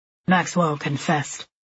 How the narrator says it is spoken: Tom says

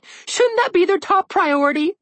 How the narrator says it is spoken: Red whined

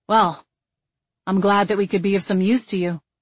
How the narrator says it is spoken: he said coldly

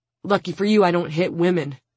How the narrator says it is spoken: he pants

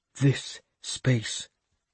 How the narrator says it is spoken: Father Biocca told me in a hushed voice

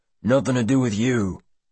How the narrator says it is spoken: grunts the man

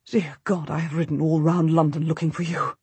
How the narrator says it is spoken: he gasps

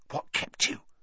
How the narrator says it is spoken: Ron hissed

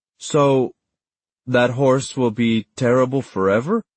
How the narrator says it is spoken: Daniel had asked

